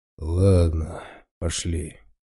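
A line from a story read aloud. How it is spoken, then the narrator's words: Sigh. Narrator (Russian): вздохнул медведь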